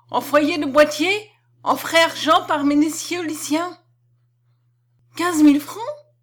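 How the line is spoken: Exclaimed. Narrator (French): s'écria Ève

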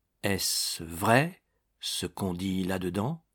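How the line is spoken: Murmured. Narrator (French): murmura-t-il

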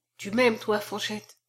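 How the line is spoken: Murmuring after drinking. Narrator (French): murmura-t-il après avoir bu

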